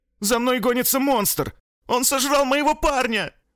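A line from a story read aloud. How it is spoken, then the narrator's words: Tearful shout. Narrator (Russian): Выкрикнула Кэтрин, и по ее лицу потекли слезы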